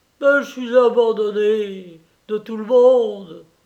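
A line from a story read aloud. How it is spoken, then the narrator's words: Desperate exclamation. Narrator (French): s'écria Dominique d'un air désespéré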